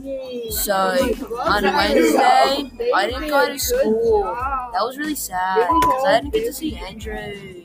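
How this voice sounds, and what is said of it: Poor imitation of Australian accent. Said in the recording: “Why are you guys all talking like me? ... I'm talking Australian. ... Bro, you can't even talk Australian.”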